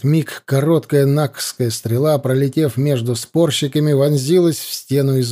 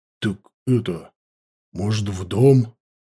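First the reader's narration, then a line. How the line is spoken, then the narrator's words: Stunned, forced words. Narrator (Russian): выдавил Толя, ошеломленно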